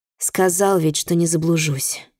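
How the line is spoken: Sigh. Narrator (Russian): вздохнул Рюсей

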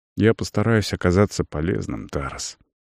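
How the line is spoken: Quiet. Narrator (Russian): произнес негромко

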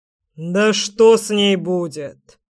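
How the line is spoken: Menacing reply. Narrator (Russian): грозно ответил крёстный

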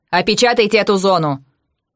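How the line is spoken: Harsh barked order. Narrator (Russian): рявкнула

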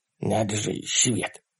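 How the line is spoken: Whispered. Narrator (Russian): прошептал Ларри

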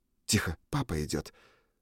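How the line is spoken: Throat clear, whisper. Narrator (Russian): Рин прокашлялась и шепнула уже мне

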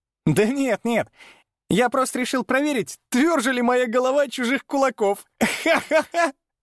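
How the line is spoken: Laughing reply. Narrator (Russian): Стёпа рассмеялся в ответ

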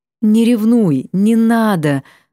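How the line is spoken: Tired pleading. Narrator (Russian): взмолилась устало

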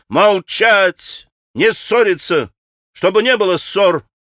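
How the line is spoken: Commanding shout. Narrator (Russian): крикнула повелительно Грушенька

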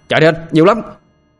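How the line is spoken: Alarmed shouting. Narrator (Vietnamese): Tôi thấy không ổn, liền hét lên

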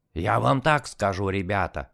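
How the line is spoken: Hoarse wheezing. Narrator (Russian): хрипел Сашка

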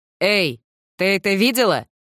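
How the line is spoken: Loud question. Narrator (Russian): громко спросил Бен из ниши

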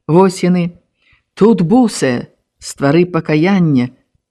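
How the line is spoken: Quiet reading. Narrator (Belarusian): ціха прачытала Алеся

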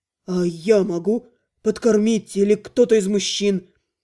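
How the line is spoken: Doubtful. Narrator (Russian): поделилась своими сомнениями

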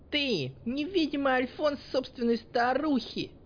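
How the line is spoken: Yelling. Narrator (Russian): заорала искра

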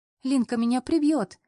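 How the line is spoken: Giggling. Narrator (Russian): хихикает Рита

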